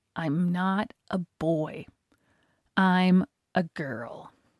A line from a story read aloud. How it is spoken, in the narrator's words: Through gritted teeth, forced myself to say